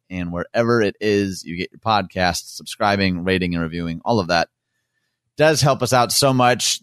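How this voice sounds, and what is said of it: Defeated, deflated flat delivery. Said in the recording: “can you hear it in my voice? ... It felt defeated. ... Defeated and deflated, man.”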